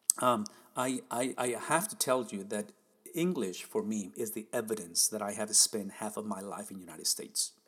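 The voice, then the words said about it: Non-native English accent. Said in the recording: “you obviously can listen to my accent as I try to speak this foreign language to me, which is the beautiful language of English”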